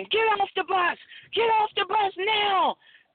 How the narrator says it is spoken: a group of men charged the bus, and they were on the bus yelling

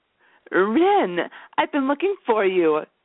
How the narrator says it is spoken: she exclaimed

